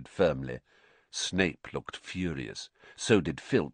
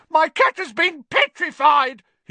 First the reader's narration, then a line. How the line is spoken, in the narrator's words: he shrieked